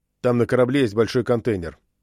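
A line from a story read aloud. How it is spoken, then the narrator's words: Sharp reply. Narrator (Russian): резко ответил он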